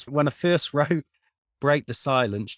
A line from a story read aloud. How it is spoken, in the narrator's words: Josh laughed when he handed it back and he said